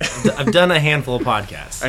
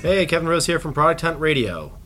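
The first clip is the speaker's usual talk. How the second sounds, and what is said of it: Polished radio announcer voice. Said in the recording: “I like that radio voice.”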